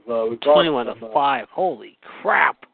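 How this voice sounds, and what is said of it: Impression of a sitcom character. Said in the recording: “doing his impression of Frank from Everybody Loves Raymond.”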